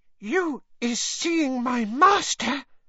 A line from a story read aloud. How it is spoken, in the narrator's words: said Winky breathlessly